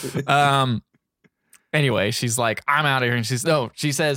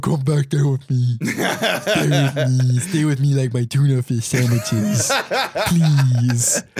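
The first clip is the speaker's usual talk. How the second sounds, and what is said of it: Imitates another person's voice. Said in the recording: “It's a really good Paul Walker impersonation.”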